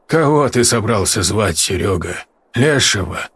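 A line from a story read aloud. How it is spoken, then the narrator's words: Grim smirk. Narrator (Russian): Мрачно усмехнулся Матвеич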